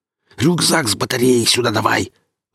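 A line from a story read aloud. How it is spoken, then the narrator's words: Angry hiss. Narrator (Russian): зло прошипел Гриф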